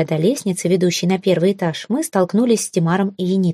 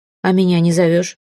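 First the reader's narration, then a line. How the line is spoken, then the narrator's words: Snort from behind. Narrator (Russian): фыркнул сзади Эрелив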